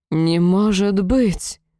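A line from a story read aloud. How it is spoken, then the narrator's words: Moaning. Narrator (Russian): Простонала страсть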